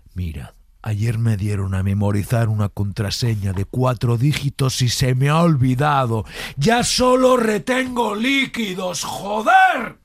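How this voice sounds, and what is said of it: Whisper rising to an angry shout. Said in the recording (Spanish): “la transición del bajo al alto, del susurrado al enfadado”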